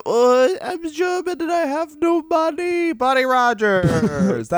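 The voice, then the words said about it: Imitates another person's voice. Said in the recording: “my impression of Buddy Rogers”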